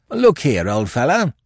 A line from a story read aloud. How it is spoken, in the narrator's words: began Billy, in his most conciliatory tone